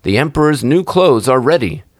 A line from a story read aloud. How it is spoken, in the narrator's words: cried they at last